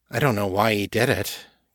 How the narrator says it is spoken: Kate said wearily

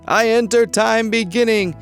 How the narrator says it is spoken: someone screaming at the top of their lungs

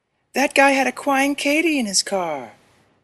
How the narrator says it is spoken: the girl whined

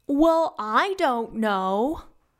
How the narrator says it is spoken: Olivan exclaimed

